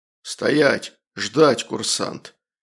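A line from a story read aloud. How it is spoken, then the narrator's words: Menacing growl, sergeant. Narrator (Russian): унтер прорычал грозно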